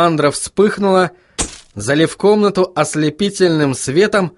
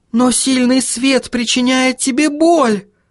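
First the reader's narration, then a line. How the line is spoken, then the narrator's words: Exclaimed. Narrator (Russian): воскликнула Сахариса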